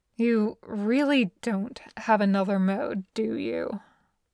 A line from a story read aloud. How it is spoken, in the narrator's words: Robert sighs